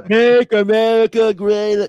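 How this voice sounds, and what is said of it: Imitates a politician's voice. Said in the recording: “I've never heard a man of color do a Trump impression that good before.”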